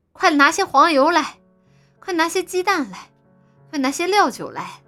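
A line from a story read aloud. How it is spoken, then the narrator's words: Man, loud calling. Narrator (Chinese): 他是个高大英俊的汉子，总是高声的呼喊道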